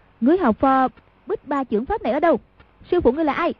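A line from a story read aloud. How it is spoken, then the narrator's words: Sharp shout. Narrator (Vietnamese): Hoàng Dung quát lên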